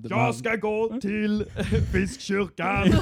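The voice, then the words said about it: Shouting in a put-on Gothenburg accent. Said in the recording (Swedish): “skriker ju verkligen bara på göteborgska ... Det är så han pratar”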